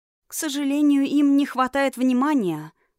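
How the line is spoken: Sigh from behind. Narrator (Russian): вздохнула у нее за спиной

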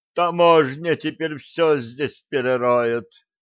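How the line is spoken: Groaning. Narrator (Russian): простонал ученый

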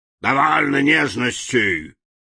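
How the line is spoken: Rough shout. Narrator (Russian): грубо закричал Урфин-Джус

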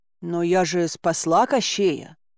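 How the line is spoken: Hesitant start. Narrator (Russian): неуверенно начала

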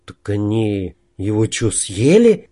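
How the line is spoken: Frightened question. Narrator (Russian): испуганно спросил Снежок

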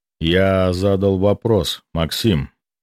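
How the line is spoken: Icy repeat. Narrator (Russian): ледяным тоном повторил Гвидон

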